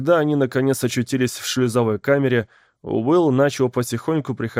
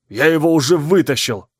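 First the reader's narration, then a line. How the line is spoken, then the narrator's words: Snapping back. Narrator (Russian): огрызнулся Райти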